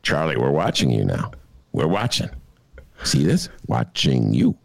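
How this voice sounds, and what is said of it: Imitates another person's voice. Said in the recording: “my Robert De Niro imitation.”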